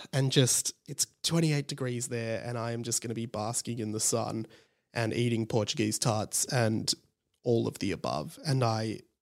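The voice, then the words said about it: Sick, run-down voice. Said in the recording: “You can probably hear in my voice, I'm sick, I'm run down”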